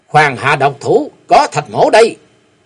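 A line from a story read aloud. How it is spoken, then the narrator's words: Shout. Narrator (Vietnamese): Tiếng quát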